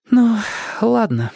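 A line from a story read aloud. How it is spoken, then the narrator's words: Sighing. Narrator (Russian): вздохнула Эльза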